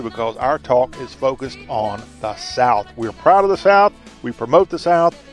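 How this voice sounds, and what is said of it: Southern American accent. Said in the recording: “talking with a Southern accent. And we talk with a Southern accent, too”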